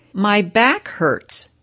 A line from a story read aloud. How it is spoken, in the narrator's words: cried